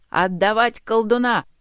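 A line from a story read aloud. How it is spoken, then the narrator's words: Rider's shout. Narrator (Russian): крикнул один из всадников, преследующих отряд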